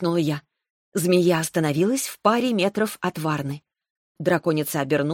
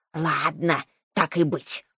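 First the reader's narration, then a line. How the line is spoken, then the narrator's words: Grumble. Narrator (Russian): буркнула Шаньга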